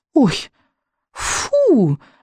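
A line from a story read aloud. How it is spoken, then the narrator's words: Disgusted exclamation. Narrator (Russian): воскликнула она с отвращением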